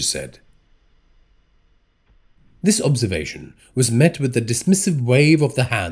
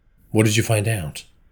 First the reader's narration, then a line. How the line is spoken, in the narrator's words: Tejas asked